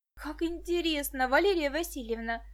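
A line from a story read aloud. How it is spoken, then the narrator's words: Exclaimed. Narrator (Russian): воскликнула Виктоша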